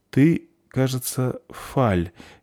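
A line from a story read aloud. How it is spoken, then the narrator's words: Uncertain. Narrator (Russian): неуверенно сказала Заверушка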